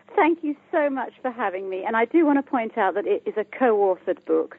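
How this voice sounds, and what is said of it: British accent. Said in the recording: “I'm from the UK, as you can hear by my accent”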